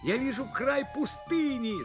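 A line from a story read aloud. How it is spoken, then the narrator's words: Shouting. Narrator (Russian): закричал он снова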